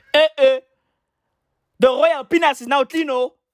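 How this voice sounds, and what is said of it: Put-on African accent. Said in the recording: “Is that an African accent? You know, was she sounding like,”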